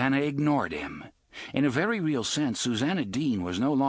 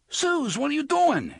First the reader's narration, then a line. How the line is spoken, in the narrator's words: Eddie yelled